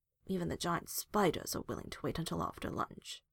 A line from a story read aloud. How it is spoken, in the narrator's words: Hawk grumbled